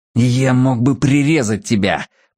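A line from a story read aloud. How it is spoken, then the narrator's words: Hissed. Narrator (Russian): прошипел Кин в лицо Мэтью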